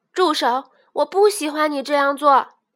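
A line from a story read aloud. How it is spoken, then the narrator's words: Loud repetition. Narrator (Chinese): 吉米大声的重复道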